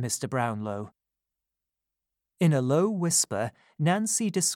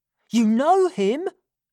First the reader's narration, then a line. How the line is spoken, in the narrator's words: cried Nancy in surprise